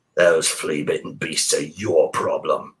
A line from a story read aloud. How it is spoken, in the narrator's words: Great Mother grumbled